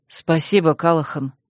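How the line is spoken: Quiet reply. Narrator (Russian): негромко ответил Дар

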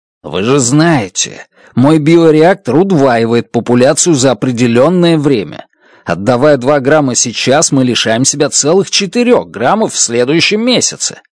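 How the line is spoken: Hissing. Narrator (Russian): зашипел

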